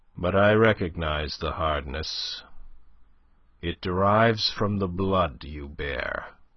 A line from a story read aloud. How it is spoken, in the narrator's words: he said grimly